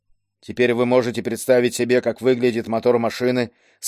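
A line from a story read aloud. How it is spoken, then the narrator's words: Plain. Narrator (Russian): сказал Леру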